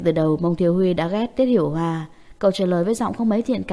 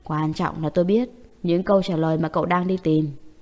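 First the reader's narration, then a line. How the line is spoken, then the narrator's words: Laugh, then sudden low voice. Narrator (Vietnamese): Tên Hiểu Hoa cười phá lên, đột nhiên hạ thấp giọng và nói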